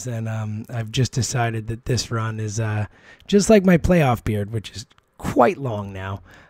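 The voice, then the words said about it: Hoarse, nearly lost voice. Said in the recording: “apologize for my voice. It's gone. ... the run where I didn't have a voice”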